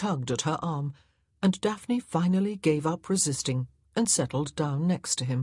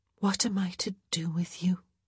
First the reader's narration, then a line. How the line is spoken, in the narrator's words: she whispered